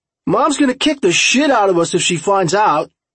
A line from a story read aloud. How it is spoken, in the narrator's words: Kyle Schaefer hollered over the grumbling dirt bikes